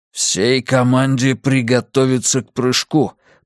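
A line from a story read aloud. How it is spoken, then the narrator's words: Through gritted teeth. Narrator (Russian): процедил Миртон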